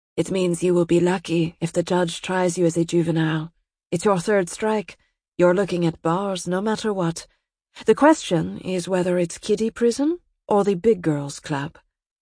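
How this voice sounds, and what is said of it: Slight accent, rolling purring voice. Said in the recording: “There was a slight accent to her words, some rolling purr.”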